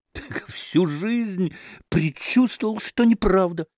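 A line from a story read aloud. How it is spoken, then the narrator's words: Enthusiastic exclamation. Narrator (Russian): с увлечением воскликнул Федор Павлович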